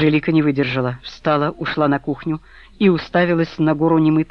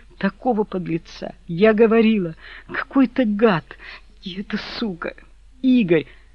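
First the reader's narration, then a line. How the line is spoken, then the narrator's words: Through frequent sobs. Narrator (Russian): Сквозь частые всхлипывания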